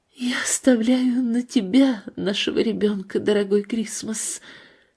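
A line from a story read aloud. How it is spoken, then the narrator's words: Weakening voice. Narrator (Russian): Она слабеющим голосом произносит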